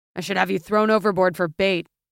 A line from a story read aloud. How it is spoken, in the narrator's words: the older man growled